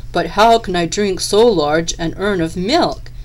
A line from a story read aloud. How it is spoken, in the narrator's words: groaned